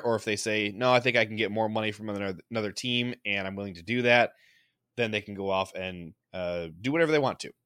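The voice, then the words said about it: Slightly rough, congested voice. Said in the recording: “I have a bit of a cold and my voice is a little bit rough”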